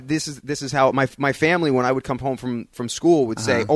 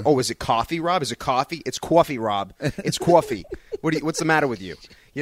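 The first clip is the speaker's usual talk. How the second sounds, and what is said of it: Put-on Long Island accent. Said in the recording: “Long Island accent ... everybody sounds very, very Long Island”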